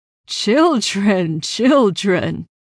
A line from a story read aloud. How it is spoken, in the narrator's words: Sir Piers chuckled loudly